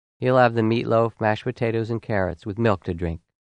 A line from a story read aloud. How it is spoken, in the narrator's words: His mother quickly interjected